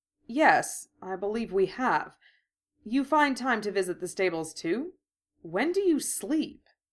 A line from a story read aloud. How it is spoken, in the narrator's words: Josephine laughed, clear as a bell